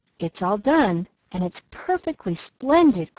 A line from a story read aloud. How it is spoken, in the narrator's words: cried Nan, with the air of triumph